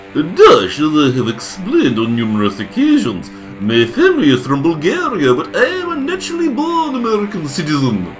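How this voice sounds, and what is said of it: Fruity foreign accent. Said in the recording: “a likely fruity accent”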